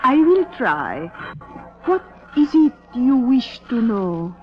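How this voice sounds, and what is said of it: Phony fortune-teller accent. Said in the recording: “cut the phony accent”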